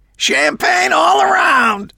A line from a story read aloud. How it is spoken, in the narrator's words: Arnold yelled to the small assembled crowd